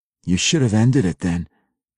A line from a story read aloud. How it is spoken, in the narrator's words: Drizzt replied calmly, in the common surface tongue